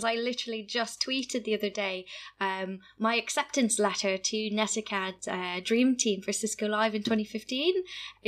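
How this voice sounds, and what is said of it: Canadian accent. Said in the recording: “coming from Canada, which you can tell by my voice”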